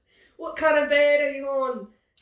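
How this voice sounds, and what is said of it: Bad put-on Australian accent. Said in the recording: “That was a bad Australian accent”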